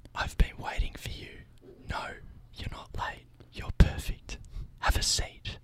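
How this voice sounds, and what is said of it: Calm soft whisper. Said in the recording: “I'm whispering my bit ... It's calming ... Make sure your mic's turned up so you whisper.”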